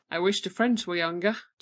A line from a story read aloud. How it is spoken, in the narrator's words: chuckled Dr